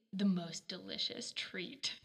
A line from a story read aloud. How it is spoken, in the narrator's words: he growled